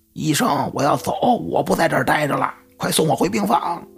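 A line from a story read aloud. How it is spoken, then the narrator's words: Insistent shouting. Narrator (Chinese): 这病人一个劲喊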